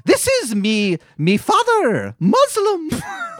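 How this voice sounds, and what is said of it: Exaggerated silly put-on accent. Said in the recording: “Stupid accent.”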